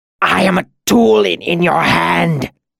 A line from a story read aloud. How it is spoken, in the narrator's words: he gasped